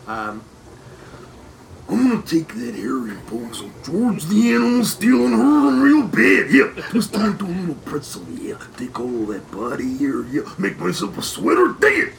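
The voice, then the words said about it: Imitates another person's voice. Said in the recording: “your Macho Man impression. ... Can you give us a little Macho Man?”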